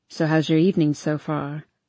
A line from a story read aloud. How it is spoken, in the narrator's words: Harden says in a casual tone